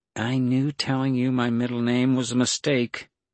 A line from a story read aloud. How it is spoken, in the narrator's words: She sighed and said